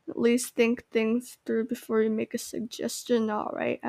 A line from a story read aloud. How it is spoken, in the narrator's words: I muttered to myself